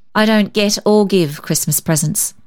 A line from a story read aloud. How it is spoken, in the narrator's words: observed Susan coldly